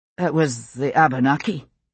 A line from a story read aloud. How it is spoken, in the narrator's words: he said, his voice muffled